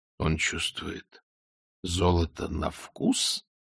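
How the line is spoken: Whisper. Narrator (Russian): прошептал Ваймс

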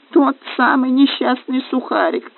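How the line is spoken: Sobbing. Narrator (Russian): рыдал гном

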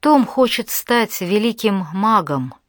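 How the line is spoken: Sighing woman. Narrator (Russian): она вздохнула

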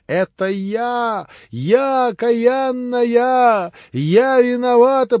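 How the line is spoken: Heartrending tearful wail. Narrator (Russian): прокричала она раздирающим душу воплем, вся в слезах

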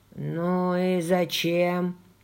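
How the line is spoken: Cracked low grumble. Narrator (Russian): проворчал натреснутый низкий голос

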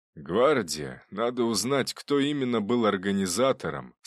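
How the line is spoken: Plain. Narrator (Russian): сказал он

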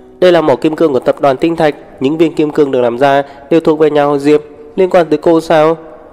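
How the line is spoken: Resentful sneer. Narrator (Vietnamese): Bella tức tối, cười khẩy

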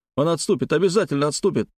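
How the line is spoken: Babbling. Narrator (Russian): продолжил лепетать Гаврила

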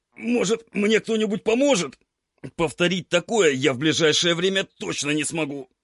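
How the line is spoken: Strained hoarse rasp, gritted teeth. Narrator (Russian): Прохрипел я сквозь зубы, пытаясь сдвинуть железную дверь в стену

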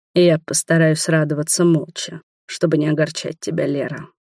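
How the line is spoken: Surprisingly calm rumble. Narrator (Russian): пророкотал на удивление спокойно

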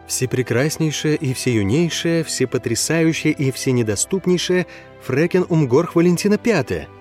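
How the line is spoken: Astonished whisper. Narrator (Russian): пораженно прошептал я

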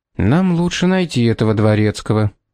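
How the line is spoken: Tired. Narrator (Russian): устало сказал Пит

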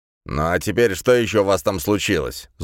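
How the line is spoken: Angry question. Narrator (Russian): зло спросил Бруно

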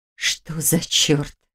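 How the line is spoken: Breathless exhale. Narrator (Russian): выдохнула Ольга

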